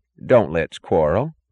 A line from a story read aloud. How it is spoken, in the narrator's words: said his mother, her voice cheerless and vague